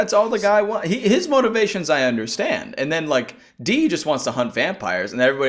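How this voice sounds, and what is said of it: Usual voice. Nothing is said of it.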